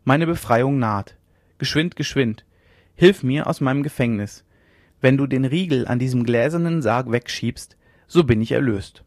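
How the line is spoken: Calling out. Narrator (German): rief sie

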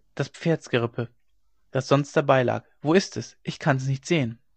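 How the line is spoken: Low murmur. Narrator (German): raunte er

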